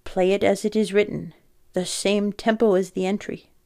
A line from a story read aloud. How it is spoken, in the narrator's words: instructed sharply